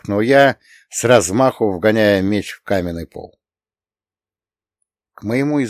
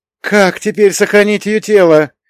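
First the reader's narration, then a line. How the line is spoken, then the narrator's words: Disbelieving exclamation. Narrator (Russian): Все еще не веря, что я на его глазах совершил настоящее святотатство, воскликнул Иван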